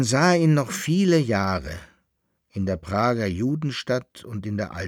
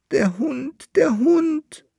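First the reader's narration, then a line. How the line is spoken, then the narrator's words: Wailing. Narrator (German): jammerte der Berl-Landfahrer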